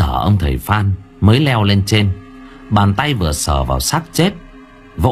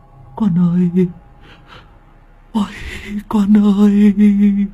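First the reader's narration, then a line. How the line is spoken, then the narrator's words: Sobbing old man. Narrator (Vietnamese): ông Hoàng mếu máo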